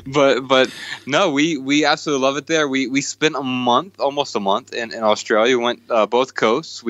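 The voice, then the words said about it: American southern accent. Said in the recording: “my weird southern accent”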